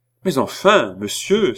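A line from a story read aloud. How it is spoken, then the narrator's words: Crying out. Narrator (French): s'écria la reine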